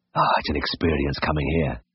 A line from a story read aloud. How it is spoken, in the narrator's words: whispered